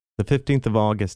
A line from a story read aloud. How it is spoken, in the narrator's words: said